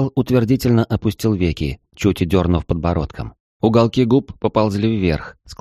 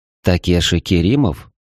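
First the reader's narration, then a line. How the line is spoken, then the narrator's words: Quiet. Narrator (Russian): негромко произнес я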